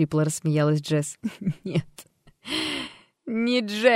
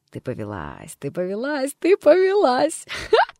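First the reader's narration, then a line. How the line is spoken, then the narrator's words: Girl laughing. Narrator (Russian): смеялась девушка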